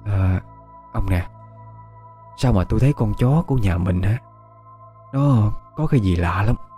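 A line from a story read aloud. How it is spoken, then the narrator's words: Old woman whispering. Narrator (Vietnamese): Bà thì thào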